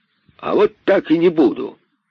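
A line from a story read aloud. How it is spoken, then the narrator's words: Irritated exclamation. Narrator (Russian): раздраженно воскликнул удав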